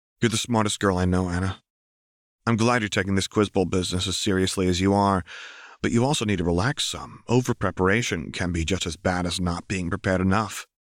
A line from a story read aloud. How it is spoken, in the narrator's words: Anna sighed